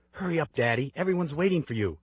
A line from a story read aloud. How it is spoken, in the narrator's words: my 9-year-old hisses